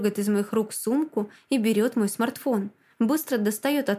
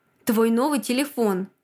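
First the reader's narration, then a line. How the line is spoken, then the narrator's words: Angry. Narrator (Russian): Зло отвечает Влад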